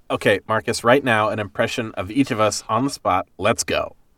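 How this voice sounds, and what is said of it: Mimicking another host's voice. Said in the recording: “That's more you're mimicking me. I don't know if that's an impression.”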